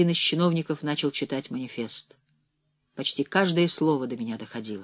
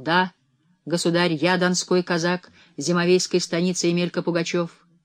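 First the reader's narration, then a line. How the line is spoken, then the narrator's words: Loud reply. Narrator (Russian): Он столь же громко ответствовал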